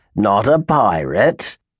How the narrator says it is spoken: growled Grimes

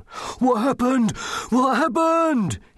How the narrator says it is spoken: he panted

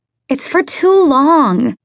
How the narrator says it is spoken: Maddie whined, knowing that she sounded like a child

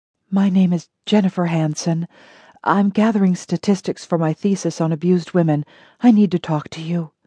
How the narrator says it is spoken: In a voice barely above a whisper said

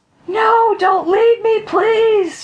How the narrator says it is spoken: she wailed

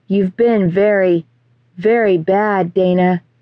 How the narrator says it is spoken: he said slowly

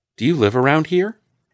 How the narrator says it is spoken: Aaron asks eagerly

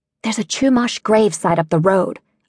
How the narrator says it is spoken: whispered

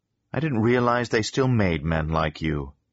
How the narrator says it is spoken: Victoria Lord said

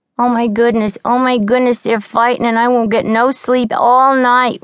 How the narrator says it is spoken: whined Tessie, a pale, frightened girl

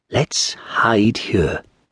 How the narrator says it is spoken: whispered

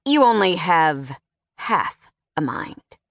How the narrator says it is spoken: sneered

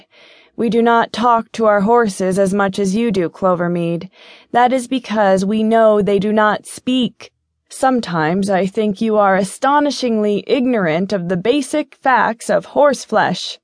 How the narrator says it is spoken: chuckled

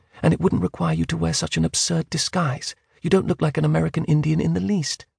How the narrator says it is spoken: she said calmly

